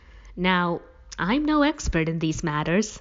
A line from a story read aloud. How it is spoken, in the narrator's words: we laughed